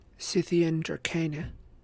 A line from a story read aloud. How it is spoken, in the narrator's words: Annabeth whispered